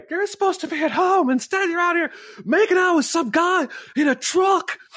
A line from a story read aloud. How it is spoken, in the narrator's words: he's screaming at her